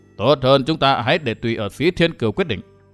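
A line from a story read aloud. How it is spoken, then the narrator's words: Stern old man. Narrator (Vietnamese): Một lão nhân nghiêm nghị nói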